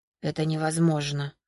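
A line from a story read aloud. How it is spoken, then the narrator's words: Whisper. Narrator (Russian): прошептал Витор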